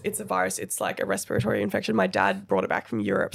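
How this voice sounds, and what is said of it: Unusual, sick-sounding voice. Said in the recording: “I have RSV at the moment, guys, which is a respiratory virus. So if my voice sounds a little bit crazy, that's what it is.”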